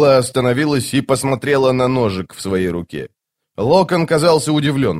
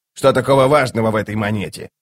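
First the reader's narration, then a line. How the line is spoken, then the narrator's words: Grumbling. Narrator (Russian): проворчал он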